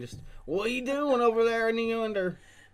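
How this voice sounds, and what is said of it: Mock country twang. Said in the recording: “make fun of her twang every now and then. Every once in a while, you're going to hear me make fun of her twang.”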